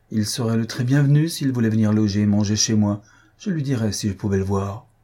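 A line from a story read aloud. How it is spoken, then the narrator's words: Exclaimed again. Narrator (French): s'écria encore Madame Jennings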